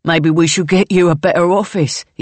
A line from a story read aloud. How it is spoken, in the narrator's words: he says through a laugh